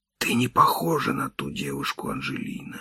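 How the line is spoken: Whispered. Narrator (Russian): шептал я

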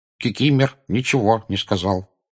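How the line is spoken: Replied. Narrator (Russian): отозвался эльф

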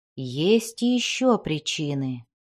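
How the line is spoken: Quiet. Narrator (Russian): тихо сказал он

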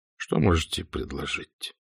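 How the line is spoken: Sighing question. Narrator (Russian): спросил Ассорио, вздохнув

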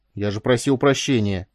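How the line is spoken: Stung snapping retort. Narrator (Russian): огрызнулся уязвленный Ку

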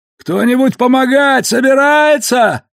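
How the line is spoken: Little horse shouting. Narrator (Russian): прокричал конечек

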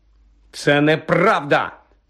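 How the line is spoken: Angry denial. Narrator (Ukrainian): сердито заперечив Гаррі

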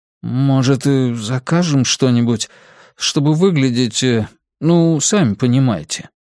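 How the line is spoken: Hesitant. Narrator (Russian): Человек неуверенно произнес

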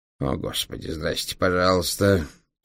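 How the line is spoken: Sighing. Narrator (Russian): вздохнул ученый

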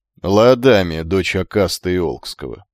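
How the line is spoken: Lazy, masking hurt. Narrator (Russian): лениво бросила Алай, стараясь не показать, как задели его последние слова Алкида

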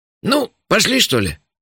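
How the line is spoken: Cheerful question. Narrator (Russian): бодро вопросил этот счастливчик

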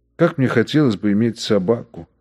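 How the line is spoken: Plain. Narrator (Russian): сказал номер 7105

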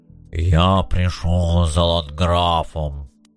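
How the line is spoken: Booming demand. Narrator (Russian): Бронзовый дуболом гулким голосом потребовал

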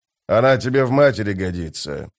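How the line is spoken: Grumbled. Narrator (Russian): буркнул Беннет

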